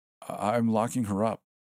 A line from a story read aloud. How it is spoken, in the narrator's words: Al said shakily